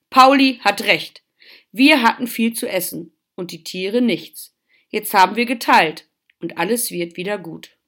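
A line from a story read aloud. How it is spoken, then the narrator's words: Father calling out. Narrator (German): rief Papa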